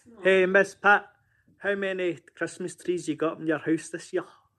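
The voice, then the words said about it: Scottish accent. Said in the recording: “somebody from England ... Sounds Scottish ... It's Scottish”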